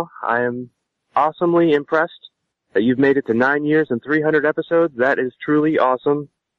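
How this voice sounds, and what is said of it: Congested, sick-sounding voice with sniffles. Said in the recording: “I apologize for the voice. I have the cold from hell ... Sniffles ... I cannot speak the words right now.”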